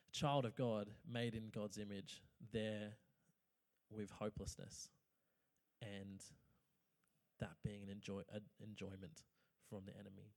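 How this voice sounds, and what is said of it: Emotional voice. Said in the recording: “I'm a bit emotional”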